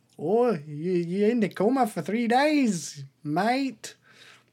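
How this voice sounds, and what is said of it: Inconsistent put-on Australian accent. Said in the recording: “I don't know why I'm doing Australian for an old lady... my accent's all over the place... That was just Australian for everybody.”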